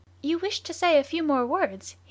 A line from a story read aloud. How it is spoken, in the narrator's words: he asked, in a pleasant voice